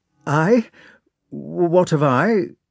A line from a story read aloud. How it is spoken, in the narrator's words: stammered Pierre